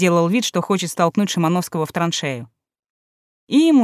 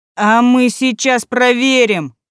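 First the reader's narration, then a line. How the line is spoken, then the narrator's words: Shouted. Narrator (Russian): крикнул Губайдулин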